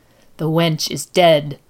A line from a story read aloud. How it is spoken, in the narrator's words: the woman hissed